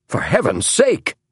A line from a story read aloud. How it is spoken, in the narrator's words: cried John Hay